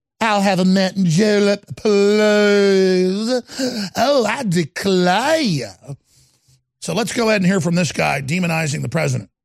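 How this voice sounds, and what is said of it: Fake Southern accent. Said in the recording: “in his fake Southern accent”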